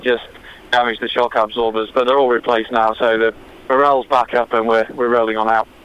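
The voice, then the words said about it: Hybrid London and northern English accent. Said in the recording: “I live in London, England, but I'm from the north of England originally, so it's a bit of a hybrid accent”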